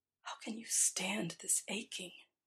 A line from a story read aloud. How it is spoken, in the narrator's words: He whispers